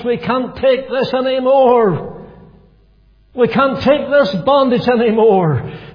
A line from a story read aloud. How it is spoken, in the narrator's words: they cried from the depths of their hearts